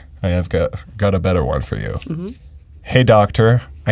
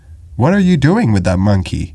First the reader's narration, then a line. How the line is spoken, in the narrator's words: he exclaimed